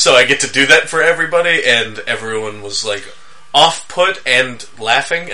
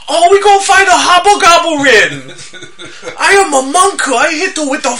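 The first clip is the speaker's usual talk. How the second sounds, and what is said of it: Exaggerated stereotyped Asian accent. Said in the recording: “Son Munku has a ridiculously racist Asian accent”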